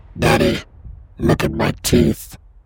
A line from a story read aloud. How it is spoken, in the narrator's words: The baby said in a strange voice